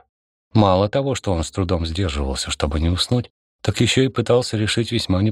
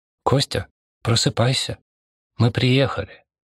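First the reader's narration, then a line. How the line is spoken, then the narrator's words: Barely audible whisper. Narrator (Russian): едва слышно шептала она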